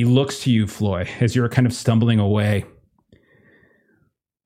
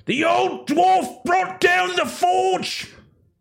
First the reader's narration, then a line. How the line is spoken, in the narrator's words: He kind of shouts out